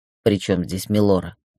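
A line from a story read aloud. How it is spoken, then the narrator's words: Cold question. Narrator (Russian): холодно поинтересовался Гроу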